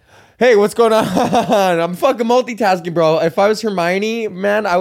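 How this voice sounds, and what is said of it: Usual voice. Nothing is said of it.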